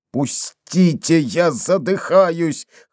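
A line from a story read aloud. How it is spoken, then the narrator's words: Hoarse wheezing. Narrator (Russian): хрипел Дембо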